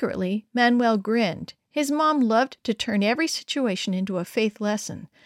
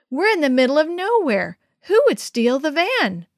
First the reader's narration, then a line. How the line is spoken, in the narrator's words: Manuel cried out, running up